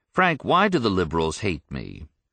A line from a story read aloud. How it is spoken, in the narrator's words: the leader asked in an earnest, sincere tone